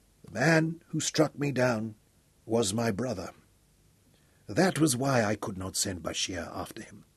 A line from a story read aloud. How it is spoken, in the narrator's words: Dorian said quietly